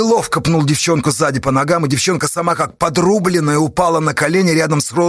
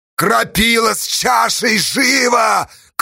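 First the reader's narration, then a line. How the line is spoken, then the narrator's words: Shout. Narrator (Russian): крикнул Калинник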